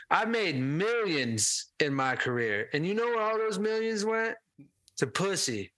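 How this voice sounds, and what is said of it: Imitates another person's voice. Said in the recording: “that was a good impression... His voice. That was good.”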